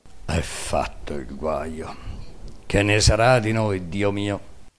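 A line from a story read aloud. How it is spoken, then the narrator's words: Murmuring. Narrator (Italian): mormorando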